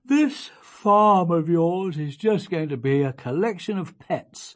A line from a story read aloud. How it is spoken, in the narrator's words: said her father, yawning